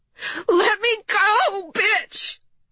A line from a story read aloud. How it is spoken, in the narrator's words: Jamie screamed